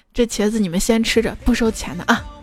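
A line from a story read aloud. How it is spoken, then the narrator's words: Ingratiating, smiling. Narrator (Chinese): 陪笑说道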